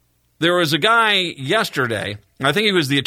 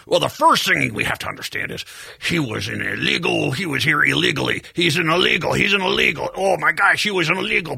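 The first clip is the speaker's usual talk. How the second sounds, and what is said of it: Impression of Indiana's Attorney General. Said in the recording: “the Attorney General for Indiana ... I'm going to do an impression of how he was”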